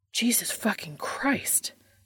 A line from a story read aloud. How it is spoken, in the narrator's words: Dean hisses